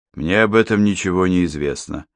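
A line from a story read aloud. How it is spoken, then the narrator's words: Dry remark. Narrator (Russian): сухо заметил Йон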